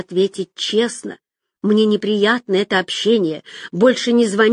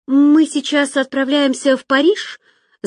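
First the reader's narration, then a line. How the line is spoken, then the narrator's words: Babbling. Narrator (Russian): залепетала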